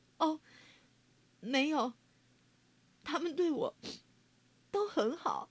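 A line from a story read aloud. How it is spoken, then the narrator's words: Sobbing. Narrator (Chinese): 丽奇娜终于忍不住哭了起来，她啜泣着说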